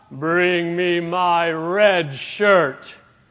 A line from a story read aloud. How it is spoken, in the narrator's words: the captain once again bellowed out